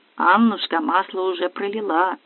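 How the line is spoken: Muttering. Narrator (Russian): бормотнул

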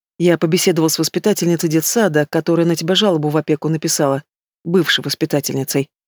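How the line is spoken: Angry clarification. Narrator (Russian): зло уточняет

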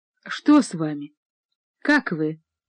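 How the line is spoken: Quiet, compassionate. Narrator (Russian): произнесла она тихим и каким-то сострадающим голосом

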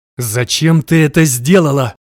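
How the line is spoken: Growled through teeth. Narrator (Russian): прорычал сквозь зубы

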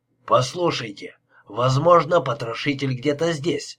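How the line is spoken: Calm. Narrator (Russian): спокойно продолжил Лепский

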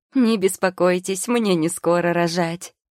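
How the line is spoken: Ringing laughter while speaking. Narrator (Russian): заливисто смеясь, заверила посетительница

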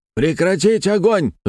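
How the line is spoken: Magically amplified yell. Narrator (Russian): заорал я, усилив голос воздухом

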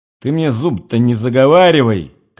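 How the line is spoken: Shouting. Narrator (Russian): кричал оборванец

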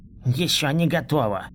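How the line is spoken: Mumbled, slurred voice. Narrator (Russian): Прошамкал он непонятно смазанным голосом

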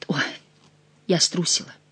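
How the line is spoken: Whispered. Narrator (Russian): прошептала она

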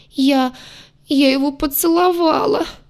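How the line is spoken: Moaning, little sister. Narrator (Russian): простонала сестренка

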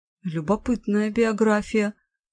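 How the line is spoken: Mumbled. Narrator (Russian): пробормотала я

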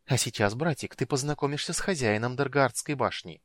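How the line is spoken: Breathy exhale. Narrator (Russian): выдохнула Китиара

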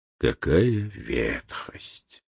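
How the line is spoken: Mutter. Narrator (Russian): пробормотал Путилин

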